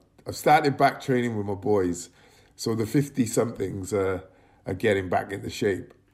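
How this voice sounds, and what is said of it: Croaky, tired voice. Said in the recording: “I am so tired ... My voice is a bit extra croaky”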